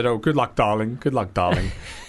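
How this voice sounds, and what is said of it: Plummy posh impression. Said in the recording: “talks like that. Very plummy with the lips, you know. So, yeah, I do a good impression.”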